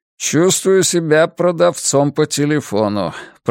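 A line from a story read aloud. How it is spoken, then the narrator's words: Grumbled. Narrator (Russian): проворчал он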